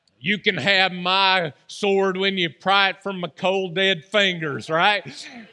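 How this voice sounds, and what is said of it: Put-on Southern drawl. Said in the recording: “They said it with a southern drawl, too.”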